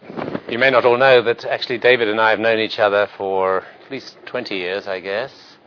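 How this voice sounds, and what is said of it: British accent. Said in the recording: “as you can tell from my accent, I used to be in Britain. I went to medical school in Edinburgh, in Scotland”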